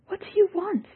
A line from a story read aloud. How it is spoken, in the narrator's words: Yalmus cried